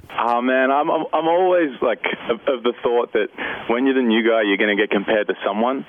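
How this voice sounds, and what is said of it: Australian accent. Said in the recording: “just by his accent, yes, he's Australian”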